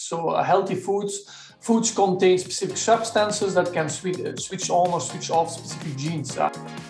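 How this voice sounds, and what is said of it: Dutch-German sounding accent. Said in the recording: “has a slightly different accent ... a kind of a Dutch, German, very, very interesting accent”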